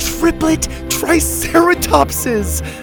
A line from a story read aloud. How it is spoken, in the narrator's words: Zeta laughed